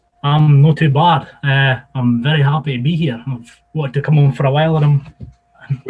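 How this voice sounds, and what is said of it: Scottish Borders accent. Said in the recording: “Am I sensing a northern accent? ... No, I'm Borders. ... It's very similar, isn't it, John, the kind of accent?”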